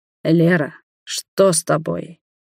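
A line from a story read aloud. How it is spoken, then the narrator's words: Hoarse voice. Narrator (Russian): хрипло проговорил Роберт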